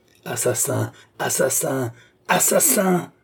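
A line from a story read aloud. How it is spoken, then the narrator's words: Young woman screaming. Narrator (French): vociféra la jeune femme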